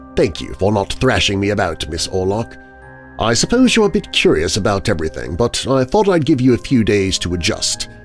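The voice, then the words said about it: British-accented character voice. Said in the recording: “He speaks in his British accent.”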